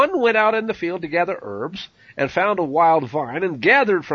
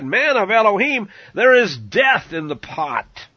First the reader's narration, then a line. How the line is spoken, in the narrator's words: they cried out and said